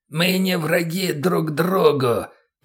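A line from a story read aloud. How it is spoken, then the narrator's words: Creaky growl. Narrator (Russian): прорычал, а точнее проскрипел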